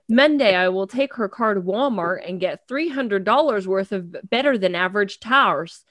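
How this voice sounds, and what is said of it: Reads with a put-on twang accent. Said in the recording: “are you doing that accent? ... she just put a little twang on it about halfway through”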